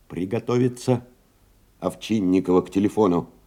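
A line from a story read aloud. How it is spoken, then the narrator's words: Hoarse tenor, repeated calling. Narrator (Russian): Телефонист Колокольчиков беспрерывно, осиплым тенорком вызывал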